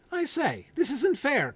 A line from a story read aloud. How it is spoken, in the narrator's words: cried the unicorn